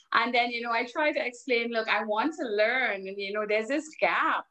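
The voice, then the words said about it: Caribbean accent. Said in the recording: “my accent is very Caribbean.”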